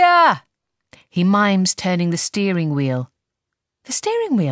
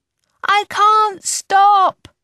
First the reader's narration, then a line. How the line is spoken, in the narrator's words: I yell back desperately